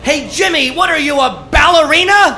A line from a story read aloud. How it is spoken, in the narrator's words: my coach screams from the dugout